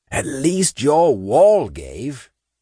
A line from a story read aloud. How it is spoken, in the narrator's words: Saint replied in a rasping growl